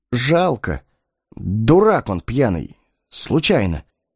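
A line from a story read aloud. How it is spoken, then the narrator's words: Forced out with effort. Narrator (Russian): выдавил он через силу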